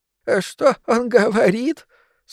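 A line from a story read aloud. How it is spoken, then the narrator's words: Asking mid-sob. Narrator (Russian): спросил Игорь, прервав рыдание на середине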